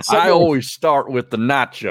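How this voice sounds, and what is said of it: Imitates another person's voice. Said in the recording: “You actually do a pretty good impression.”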